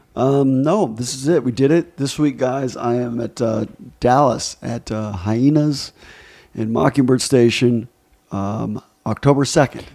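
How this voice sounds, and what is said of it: Hoarse, strained voice. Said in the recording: “Better get your voice back. Sounds like you're losing your voice.”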